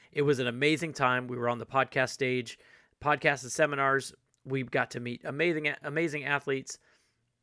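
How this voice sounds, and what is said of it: Slightly rough, hoarse voice. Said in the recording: “my voice sounds a little rough”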